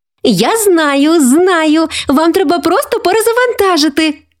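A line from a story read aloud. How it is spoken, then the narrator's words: Exclaiming. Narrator (Ukrainian): вигукнула вона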